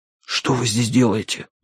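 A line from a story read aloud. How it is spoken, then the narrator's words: Whispered. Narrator (Russian): прошептал я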